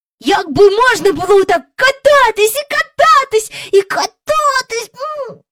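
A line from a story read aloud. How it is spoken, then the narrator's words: Exclaiming. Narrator (Ukrainian): вигукнув Майкл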